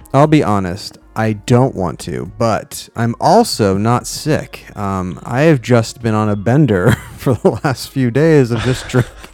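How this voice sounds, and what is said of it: Sounds upset and unenthusiastic. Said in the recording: “do I sound sick to you? ... You sound a little upset. ... you don't sound like you really want to today.”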